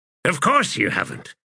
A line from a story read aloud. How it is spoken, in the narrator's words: the wizard snapped